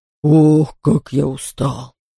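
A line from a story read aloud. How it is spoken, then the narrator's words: Grumbling bear. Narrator (Russian): проворчал медведь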